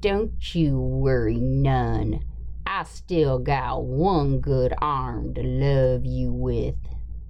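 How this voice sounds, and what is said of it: Lowered voice, put-on Appalachian accent. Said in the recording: “he wants me to have my voice lowered a couple octaves or whatever, and he wants an Appalachian accent ... you're at the crossroads between Kentucky, Tennessee”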